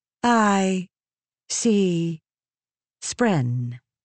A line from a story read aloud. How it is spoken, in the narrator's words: Eshonai said, speaking slowly and deliberately, as her accent was sometimes bad